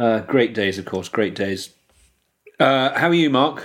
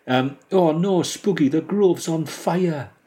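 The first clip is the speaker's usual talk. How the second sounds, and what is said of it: Attempted Geordie accent, sounds posh English. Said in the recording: “Give us some Geordie... I get nervous attempting accents, so then all I end up doing is a sort of even posher English one, rather pathetically.”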